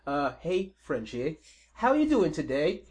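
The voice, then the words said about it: Put-on British accent. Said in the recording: “He does in a Fox British accent just to piss you off”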